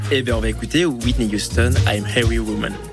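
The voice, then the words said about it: Speaks with a put-on accent. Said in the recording (French): “Mais c'est quoi cet accent? ... Et il valide, Paul, cet accent.”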